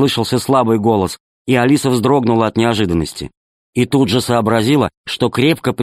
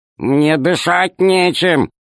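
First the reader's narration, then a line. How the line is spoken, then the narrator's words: Grumbling. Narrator (Russian): проворчал Р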